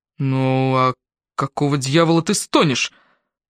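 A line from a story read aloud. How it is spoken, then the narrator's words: Groaning. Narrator (Russian): сказал это так, словно сам стонал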